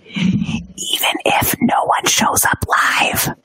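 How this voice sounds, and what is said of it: Whispering. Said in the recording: “I'm going to whisper it into my microphone”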